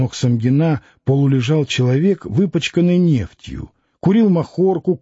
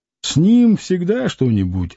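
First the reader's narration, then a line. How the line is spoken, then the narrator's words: Muffled, indifferent. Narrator (Russian): глухо и равнодушно ответил сосед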